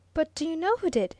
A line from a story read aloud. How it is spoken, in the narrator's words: asked Viner eagerly